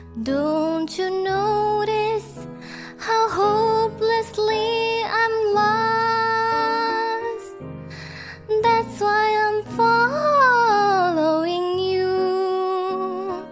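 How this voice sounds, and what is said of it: Singing voice cracks. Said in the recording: “My voice cracked.”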